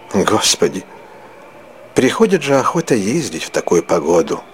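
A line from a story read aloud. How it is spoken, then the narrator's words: Woman sighing. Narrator (Russian): вздохнула дьячиха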